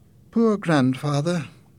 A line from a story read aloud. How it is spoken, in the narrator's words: Jenny said quietly